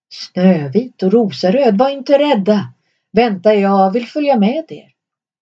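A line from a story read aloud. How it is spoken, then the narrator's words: Bear calling out. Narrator (Swedish): björnen ropade efter dem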